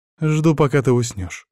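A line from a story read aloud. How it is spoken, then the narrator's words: Calm, witch. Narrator (Russian): спокойно ведьма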